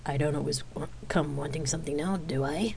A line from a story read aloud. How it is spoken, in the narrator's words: He asked with a chuckle